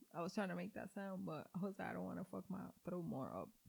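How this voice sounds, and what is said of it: Hoarse, fading voice. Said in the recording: “My voice is freaking going away ... Estoy poniendo ronca.”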